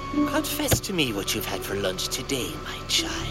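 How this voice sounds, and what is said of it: Exaggerated Irish leprechaun accent. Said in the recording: “Irish accent, right? ... And the leprechaun accent.”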